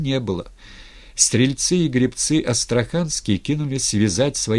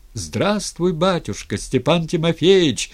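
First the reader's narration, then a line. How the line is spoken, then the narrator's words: Many voices shouting. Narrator (Russian): заорали стрельцы и астраханцы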